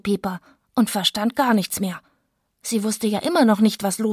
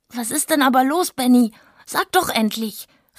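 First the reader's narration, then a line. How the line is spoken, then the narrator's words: Shouted while running. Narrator (German): rief sie im Rennen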